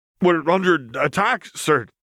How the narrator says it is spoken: the former greenhouse worker stammered

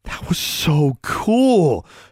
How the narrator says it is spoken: she breathed

